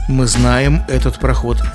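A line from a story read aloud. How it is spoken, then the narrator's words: Plain. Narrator (Russian): ответили ему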